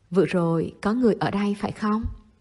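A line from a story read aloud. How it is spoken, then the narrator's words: Stiff deep hoarse voice. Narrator (Vietnamese): Chung Phất Sơ hỏi cậu bằng chất giọng cứng ngắc trầm khang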